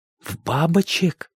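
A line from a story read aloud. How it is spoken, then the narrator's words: Breathless, choking. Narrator (Russian): выдохнул Лесь и поперхнулся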